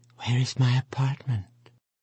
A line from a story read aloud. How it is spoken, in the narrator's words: she whispered only to Cuckoo, faintly